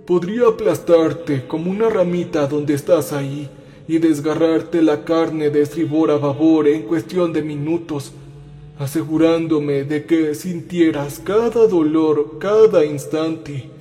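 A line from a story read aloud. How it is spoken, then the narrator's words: Heavy male voice. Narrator (Spanish): dijo él con voz pesada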